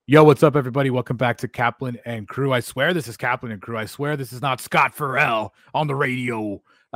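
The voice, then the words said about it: Hoarse, raspy, fading voice. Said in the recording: “It's fading quick, dude ... I apologize if my voice is unlistenable today ... I sound like absolute dog S ... the more I keep talking, the more I sound like Scott Farrell ... This is your audition for your raspy.”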